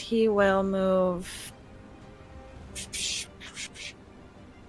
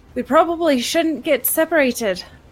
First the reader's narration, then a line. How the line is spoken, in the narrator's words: he will yell out to the others and say